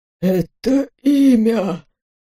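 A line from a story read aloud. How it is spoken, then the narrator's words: Suddenly hoarse voice. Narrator (Russian): сказал он вдруг севшим голосом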